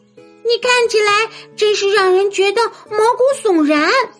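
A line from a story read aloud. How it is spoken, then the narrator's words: Shouting. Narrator (Chinese): 米妮大叫道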